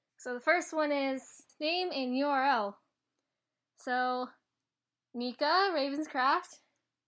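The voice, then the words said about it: Strong accent. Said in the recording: “My accent's probably coming through horribly”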